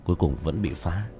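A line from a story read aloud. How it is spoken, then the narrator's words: Resigned sigh. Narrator (Vietnamese): Tiểu Thất bất đắc dĩ thở dài một tiếng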